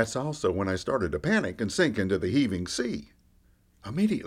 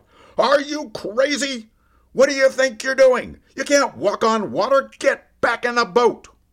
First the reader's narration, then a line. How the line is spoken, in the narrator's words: the voice in the back of my mind screamed out